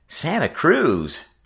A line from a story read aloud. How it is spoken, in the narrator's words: Frisco Kid cried